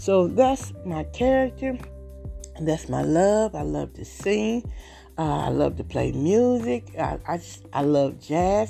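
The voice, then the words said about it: Slight American country accent. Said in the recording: “I may sound a little country”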